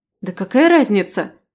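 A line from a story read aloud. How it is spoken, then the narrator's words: Angry barking. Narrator (Russian): рявкнула я, выходя из себя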